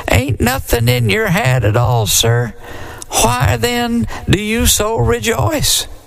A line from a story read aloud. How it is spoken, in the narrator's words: said the deacon in a quivery little voice